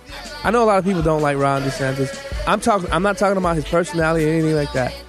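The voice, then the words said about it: Strained, fading hoarse voice. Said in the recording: “I'm kind of losing my voice, so I'm trying to not scream and yell.”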